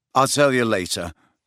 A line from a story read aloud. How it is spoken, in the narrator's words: said Harry curtly